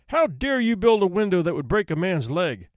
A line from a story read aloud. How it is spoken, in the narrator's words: the judge thundered